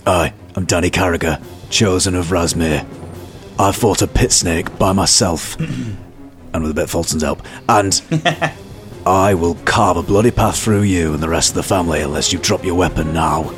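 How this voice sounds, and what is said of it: Whispered threatening line. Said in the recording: “I'd like to whisper in his ear ... I'm going to whisper”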